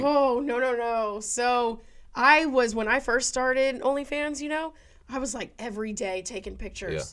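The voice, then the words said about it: Rough, unwell-sounding voice. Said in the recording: “I'm recently getting over sick. That's the reason my voice is like this ... my voice is awful.”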